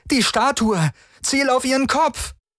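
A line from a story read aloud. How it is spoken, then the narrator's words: Called out. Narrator (German): rief Chris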